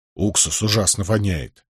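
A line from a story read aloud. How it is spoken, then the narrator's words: Grumbling. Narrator (Russian): буркнул Нетти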